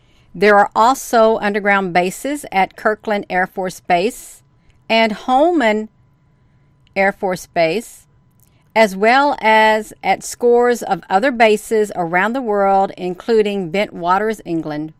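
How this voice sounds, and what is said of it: Loud, excited reading voice. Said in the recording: “Am I talking too loud, you all? I could be. I'm getting myself a little excited ... I know I get a little excited.”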